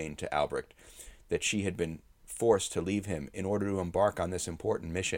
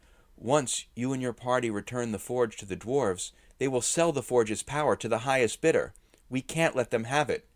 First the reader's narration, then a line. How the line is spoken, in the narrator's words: Edith exclaimed